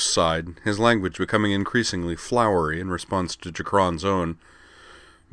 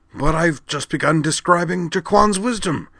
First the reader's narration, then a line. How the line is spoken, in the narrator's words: he exclaimed